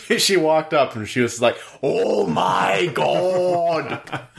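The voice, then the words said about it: Impression of an anime character voice. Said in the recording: “That's my JoJo impression of one of the JoJos.”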